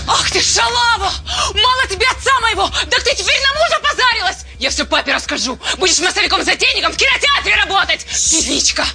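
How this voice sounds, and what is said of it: Angry shouting. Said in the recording (Russian): “не ори”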